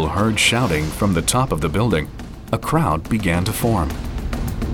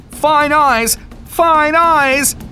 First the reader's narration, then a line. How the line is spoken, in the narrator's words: screaming